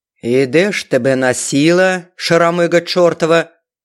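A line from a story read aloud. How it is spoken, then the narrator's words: Menacing thunderous voice. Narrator (Russian): Грозно подбоченись прогремела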